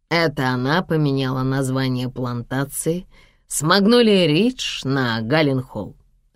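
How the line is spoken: Plain. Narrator (Russian): спросил он

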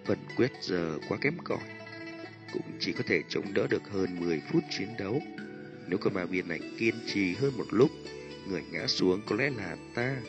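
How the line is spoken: Frowning, displeased. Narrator (Vietnamese): Tiêu Viêm cau mày nói

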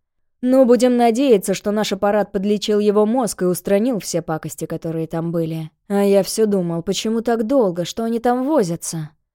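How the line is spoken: Serious, solemn. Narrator (Russian): Нюся сказала серьезно и торжественно

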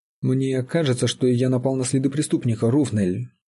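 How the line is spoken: Plain. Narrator (Russian): сказал сэр Фрэнсис

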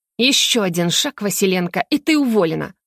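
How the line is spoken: Hiss. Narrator (Russian): прошипела Лилия

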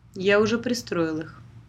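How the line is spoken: Curt and dry. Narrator (Russian): отрезал Винсент довольно сухо

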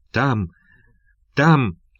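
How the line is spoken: Strangled voice. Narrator (Russian): отвечал погонщик сдавленным голосом

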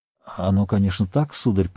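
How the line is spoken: Muttered. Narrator (Russian): пробормотал Сэм

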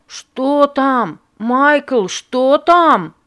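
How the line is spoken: Hurried shouting. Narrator (Russian): кричал Дуэйн, спеша через двор

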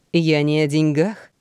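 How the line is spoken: Grim, smiling. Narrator (Russian): мрачно улыбается незнакомец

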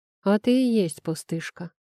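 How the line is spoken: Calm female voice. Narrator (Russian): Спокойно произнесла высокая блондинка в одеянии странствующей гадалки

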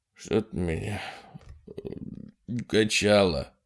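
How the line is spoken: Mutter. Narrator (Russian): пробормотал Марти

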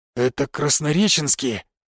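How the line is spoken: Tearful, through gritted teeth. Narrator (Russian): Процедил Игорь, чувствуя, как по лицу потекли слезы

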